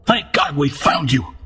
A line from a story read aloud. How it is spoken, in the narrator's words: exclaimed